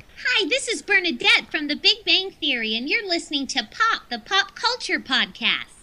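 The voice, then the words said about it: Impression of Bernadette from Big Bang Theory. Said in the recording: “Celebrity voices impersonate ... Oh, my God. People will believe that.”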